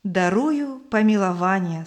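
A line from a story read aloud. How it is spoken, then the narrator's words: Plain. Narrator (Russian): сказал он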